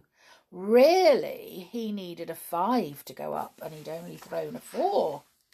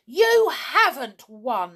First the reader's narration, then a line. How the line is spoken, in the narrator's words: he shouted to Ronnie